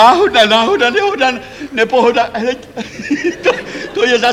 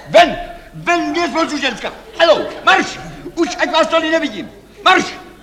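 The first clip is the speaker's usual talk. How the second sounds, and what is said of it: Shouting angrily. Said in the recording (Czech): “Nekřičte.”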